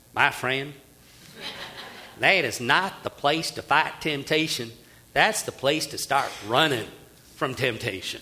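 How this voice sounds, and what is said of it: Imitating J. Vernon McGee's accent. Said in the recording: “Here's what McGee says. Excuse the accent. ... You can almost hear it, can't you?”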